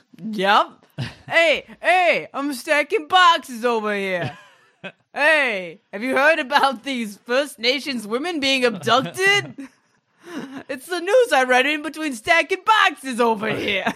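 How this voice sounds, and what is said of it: Put-on New Yorker accent. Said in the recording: “You can work on your New Yorker accent”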